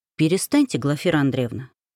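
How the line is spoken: Unexpectedly soft. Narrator (Russian): неожиданно мягко сказал Стрельцов

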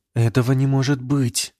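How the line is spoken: Breathless whisper, princess. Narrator (Russian): выдохнула княжна

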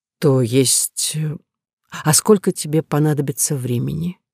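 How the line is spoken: Hesitant offer. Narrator (Russian): неуверенно предложила

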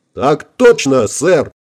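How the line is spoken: Barked in unison. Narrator (Russian): хором рявкнули ребята

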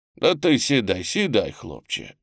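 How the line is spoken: Gentle, affectionate. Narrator (Russian): ласково сказал взводный

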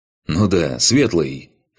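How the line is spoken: Snort. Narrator (Russian): хмыкнул Корт

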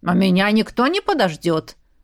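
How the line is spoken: Grumbling. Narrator (Russian): проворчала Оша

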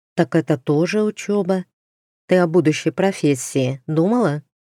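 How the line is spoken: Heavy sigh. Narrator (Russian): тяжело вздохнула

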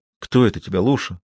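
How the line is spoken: Plain. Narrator (Russian): снова спросил Ведерников

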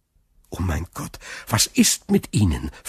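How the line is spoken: Anxious question. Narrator (German): fragte Dantès ängstlich

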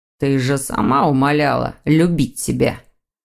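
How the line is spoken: Young man, through gritted teeth. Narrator (Russian): Сквозь зубы процедил молодой человек

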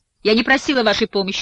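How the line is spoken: Venomous tone. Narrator (Russian): наконец говорит она ядовитым тоном

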